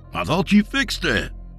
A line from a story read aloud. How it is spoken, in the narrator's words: Dak exclaimed worriedly